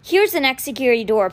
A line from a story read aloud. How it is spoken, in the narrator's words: panted Rennie, whose fear was very real